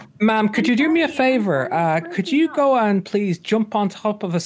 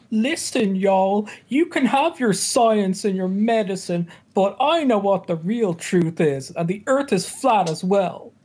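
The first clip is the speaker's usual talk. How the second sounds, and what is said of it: Imitates another person's voice. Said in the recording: “That was an impression of your stupid ass”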